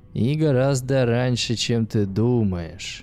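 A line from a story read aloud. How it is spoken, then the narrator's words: Mocking voice, howling laughter. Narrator (Russian): раздался в голове чужой насмешливый голос, сменившийся раскатистым хохотом, больше похожим на звериный вой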